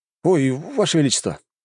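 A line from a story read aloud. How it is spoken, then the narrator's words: Exclamation. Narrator (Russian): воскликнул Лжебулатов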